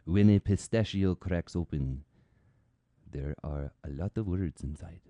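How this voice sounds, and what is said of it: Speaks in a put-on accent. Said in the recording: “I don't know where this accent is coming from”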